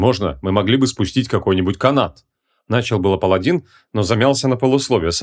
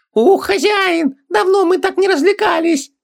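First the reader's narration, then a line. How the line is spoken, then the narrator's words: Squealed. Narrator (Russian): провизжал Хубаксис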